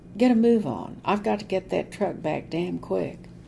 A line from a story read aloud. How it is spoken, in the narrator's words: the sergeant barked